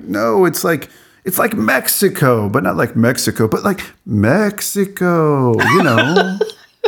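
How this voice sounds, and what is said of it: Impression of a white person's voice. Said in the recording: “that was the best impression of a white person I've ever heard you do”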